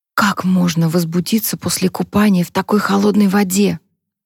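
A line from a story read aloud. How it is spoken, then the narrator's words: Whisper in ear. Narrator (Russian): прошептала Харпер на ухо Люку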